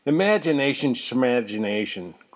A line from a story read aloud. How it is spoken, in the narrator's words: growled Mr